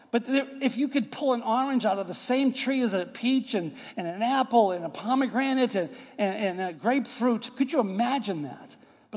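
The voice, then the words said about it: New York / Boston accent. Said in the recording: “I, am from New York and Boston area. You could tell by my accent, I'm not from the deep south.”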